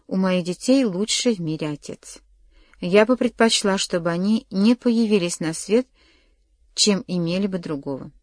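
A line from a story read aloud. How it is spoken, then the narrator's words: Calm female voice. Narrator (Russian): спокойно сказала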